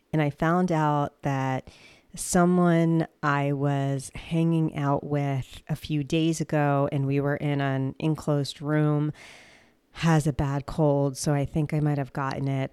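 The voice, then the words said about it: Sick voice with a cold. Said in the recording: “hear in my voice, I'm actually not feeling well... I think I have a cold.”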